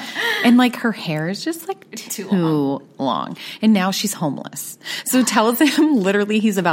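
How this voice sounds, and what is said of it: Usual voice. Nothing is said of it.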